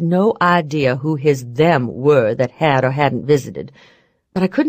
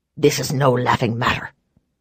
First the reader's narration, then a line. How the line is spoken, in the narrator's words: he said roughly